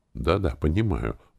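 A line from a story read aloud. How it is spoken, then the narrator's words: Quick. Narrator (Russian): быстро сказал Виктор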